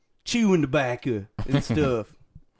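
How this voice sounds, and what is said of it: Put-on American country accent. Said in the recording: “try a country accent... It's a little better.”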